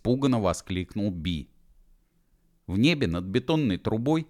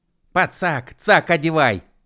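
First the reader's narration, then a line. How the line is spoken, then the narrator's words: Hysterical shout. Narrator (Russian): истерично крикнул Уэф Машкову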